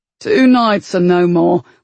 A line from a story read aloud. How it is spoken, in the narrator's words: Wit growled